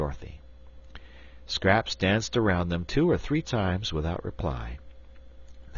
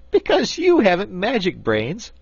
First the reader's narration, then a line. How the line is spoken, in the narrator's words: laughed Scraps